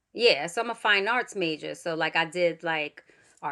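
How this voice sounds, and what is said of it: Usual voice. Nothing is said of it.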